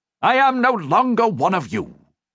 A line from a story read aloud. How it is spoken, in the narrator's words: he snapped